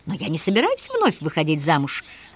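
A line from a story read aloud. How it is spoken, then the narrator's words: Laughing. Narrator (Russian): рассмеялась дочь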